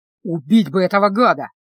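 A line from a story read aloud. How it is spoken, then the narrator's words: Hoarse. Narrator (Russian): хрипло сказал Люк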